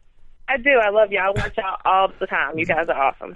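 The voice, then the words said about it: Strong Southern accent. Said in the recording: “That Southern accent is strong”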